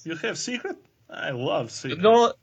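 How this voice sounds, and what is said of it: Mock Russian accent. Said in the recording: “do accents ... Russian”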